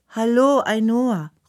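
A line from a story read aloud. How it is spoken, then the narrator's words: Calling out. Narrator (German): ruft Anna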